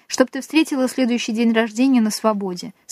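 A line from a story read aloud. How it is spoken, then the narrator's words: Plain. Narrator (Russian): сказала одна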